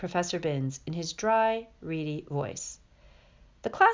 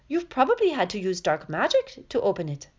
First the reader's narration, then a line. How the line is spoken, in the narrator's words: piped up Parvati Patil